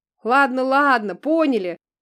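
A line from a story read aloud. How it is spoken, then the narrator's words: Friendly group laughter. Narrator (Russian): дружелюбно засмеялись ребята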